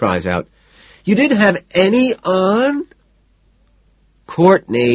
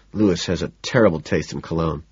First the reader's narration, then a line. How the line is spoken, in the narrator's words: I mutter